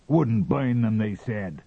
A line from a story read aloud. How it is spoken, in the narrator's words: cried Teese angrily